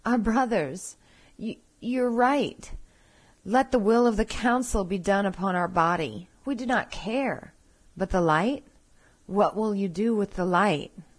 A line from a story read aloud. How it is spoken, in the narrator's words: we pleaded